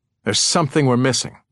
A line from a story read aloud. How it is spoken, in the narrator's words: Rhyme snapped